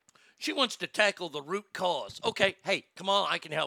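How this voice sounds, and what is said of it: Usual voice. Nothing is said of it.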